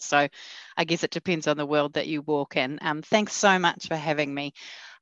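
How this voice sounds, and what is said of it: New Zealand accent. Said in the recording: “her amazing accent ... my accent described as wonderful ... this Kiwi all the way on the other side of the world”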